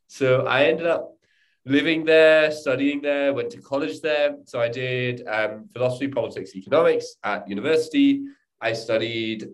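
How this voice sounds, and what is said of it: Strong British accent. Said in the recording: “this accent that I have ... this strong British accent”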